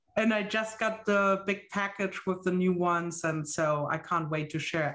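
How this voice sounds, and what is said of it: German accent that sounds Dutch. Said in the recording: “are you Dutch? You sound like my in-laws. ... I'm German, so close.”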